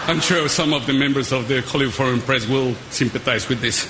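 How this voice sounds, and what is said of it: Thick foreign accent. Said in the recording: “His English is not great ... my thick accent”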